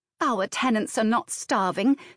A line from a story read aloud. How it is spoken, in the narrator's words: snapped Anne